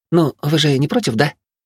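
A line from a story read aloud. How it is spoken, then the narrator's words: Innocent questioning tone. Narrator (Russian): Невинным тоном поинтересовалась Мина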